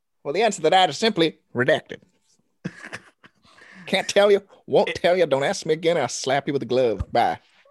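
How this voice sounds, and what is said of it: Aggressive imitation of another person's voice. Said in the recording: “he's a bit aggressive and oddly sounds like Jerry Jones ... parody of Jerry Jones ... Impersonation.”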